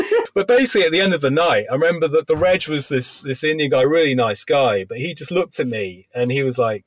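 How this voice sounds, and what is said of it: Usual voice. Nothing is said of it.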